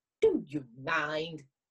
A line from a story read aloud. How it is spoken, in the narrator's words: He snapped crossly